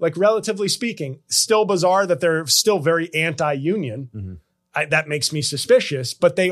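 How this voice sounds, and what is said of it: Usual voice. Nothing is said of it.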